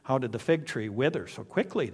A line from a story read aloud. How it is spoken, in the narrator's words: they asked